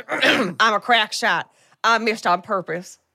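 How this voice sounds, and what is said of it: Character voice in a put-on accent. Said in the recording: “let me get into the accent.”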